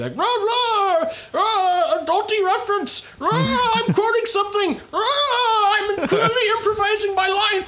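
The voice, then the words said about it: Jim Carrey impression, Bane-like. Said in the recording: “Sounded, yeah, I thought you were Jim Carrey for a second. ... Sounded like, eerily like your Bane from Dark Knight Rises impersonation.”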